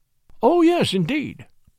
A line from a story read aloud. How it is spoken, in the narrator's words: exclaimed